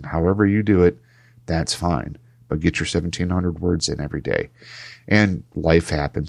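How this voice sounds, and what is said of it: Lower than usual, unwell voice. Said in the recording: “my voice is a little bit lower than usual ... I'm a little bit sicker than usual”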